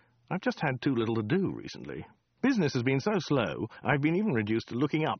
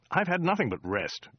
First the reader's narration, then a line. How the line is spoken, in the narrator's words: grumbled Dirk